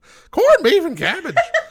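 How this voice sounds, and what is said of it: Poor put-on Irish accent. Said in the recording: “I got Irish. I'm not good at my, I'm not good at accents.”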